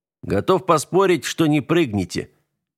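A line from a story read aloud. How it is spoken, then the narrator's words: Calm, friendly. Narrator (Russian): Градов говорил спокойно, даже доброжелательно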